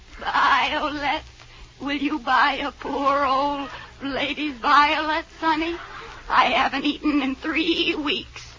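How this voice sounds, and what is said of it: Bleating old lady character voice. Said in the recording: “you sound like a goat.”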